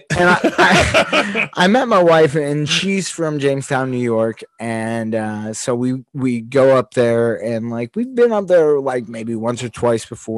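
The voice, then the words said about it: Pittsburgh accent. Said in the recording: “I had a Pittsburgh accent”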